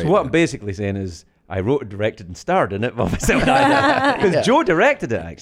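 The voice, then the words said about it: Non-American accent drifting toward American. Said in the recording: “you have this accent we've been listening to. It's becoming more American.”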